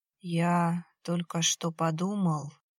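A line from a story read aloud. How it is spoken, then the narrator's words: Sluggish, sleepy voice. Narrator (Russian): заторможенно, как будто сонно произнес Виталий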